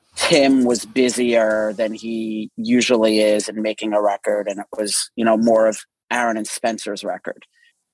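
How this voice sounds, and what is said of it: Long Island accent. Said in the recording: “he has a Long Island accent.”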